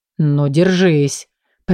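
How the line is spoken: Growl. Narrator (Russian): прорычал Леран

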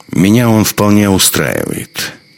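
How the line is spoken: Dry. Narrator (Russian): сказал он сухо

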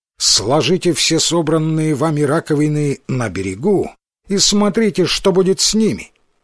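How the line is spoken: Loud commanding order. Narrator (Russian): Она вдруг приказала им громким властным голосом

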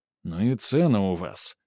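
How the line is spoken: Grumbling. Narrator (Russian): проворчал Грубер

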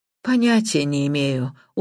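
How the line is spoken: Glum, dejected. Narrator (Russian): уныло ответила мисс Блэклок

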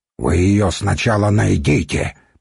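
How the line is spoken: Grumbling. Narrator (Russian): проворчал Нурман

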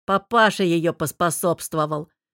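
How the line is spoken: Amused snort. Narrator (Russian): хмыкнув, сообщил Богдан

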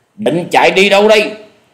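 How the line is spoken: Shout. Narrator (Vietnamese): tiếng quát

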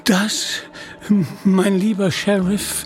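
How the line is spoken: Stammering. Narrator (German): stammelte er

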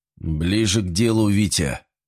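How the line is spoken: Irritated. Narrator (Russian): раздраженно произнес Дмитрий Алексеевич

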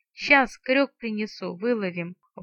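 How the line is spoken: Dejected villager's promise. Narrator (Russian): упавшим голосом пообещал селянин

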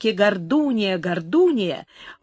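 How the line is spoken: Menacing night cries. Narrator (Russian): грозно раздавались посреди ночи

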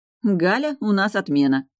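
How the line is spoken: Short laugh. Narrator (Russian): хохотнула я

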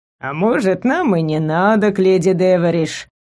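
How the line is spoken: Thoughtful drawl, animal. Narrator (Russian): Задумчиво протянуло животное

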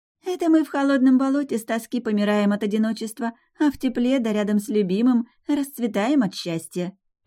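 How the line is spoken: Cooing. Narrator (Russian): проворковала Моки

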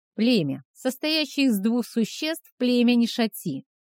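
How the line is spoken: Shrill, unpleasant voice. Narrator (Russian): произнесенную визгливым, неприятным голосом

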